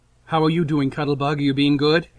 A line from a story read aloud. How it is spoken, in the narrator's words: he asks Kayla